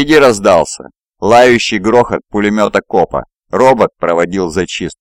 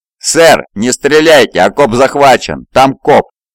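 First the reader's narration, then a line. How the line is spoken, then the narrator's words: Shouted. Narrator (Russian): закричал Сергей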